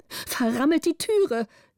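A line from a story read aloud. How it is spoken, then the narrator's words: Countess calling out. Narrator (German): rief die Gräfin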